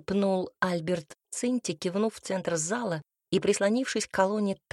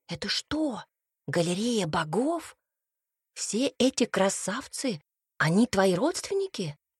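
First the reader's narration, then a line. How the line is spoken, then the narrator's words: Quiet, smirking. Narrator (Russian): Альберт усмехнулся и произнес негромко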